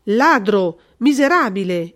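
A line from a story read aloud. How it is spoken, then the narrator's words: Exclaimed. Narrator (Italian): esclamò il colonnello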